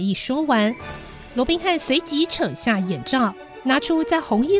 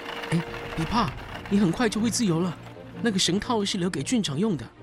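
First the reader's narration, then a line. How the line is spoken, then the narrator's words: Muttering close to ear. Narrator (Chinese): 在威尔的耳边嘟囔了几句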